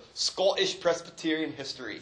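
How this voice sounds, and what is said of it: Put-on Scottish brogue. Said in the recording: “this is the one time I'm going to say it like this in my brogue”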